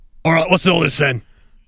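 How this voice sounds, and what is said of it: Bad gravelly Londoner accent. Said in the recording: “a bad Londoner accent ... You disguised it with gravel a bit, yeah. But it wasn't terrible.”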